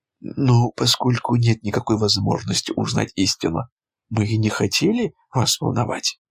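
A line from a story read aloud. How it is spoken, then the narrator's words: Plain. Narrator (Russian): сказала Карен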